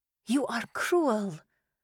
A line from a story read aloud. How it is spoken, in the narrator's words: I whispered to him